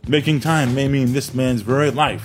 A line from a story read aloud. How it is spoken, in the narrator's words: snapped again